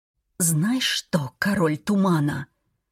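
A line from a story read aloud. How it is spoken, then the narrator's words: Frightened tearful whisper. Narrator (Russian): прошептала я, слишком напуганная, чтобы говорить громче, в страхе, что он услышит слезы в моем голосе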